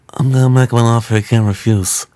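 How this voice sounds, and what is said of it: Vito Corleone Godfather impression. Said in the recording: “excellent Godfather... That was a really good impression... I think it's probably because my face is swollen right now... The swollen gums like helps.”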